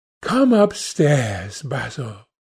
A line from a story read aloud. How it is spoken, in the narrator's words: he said quietly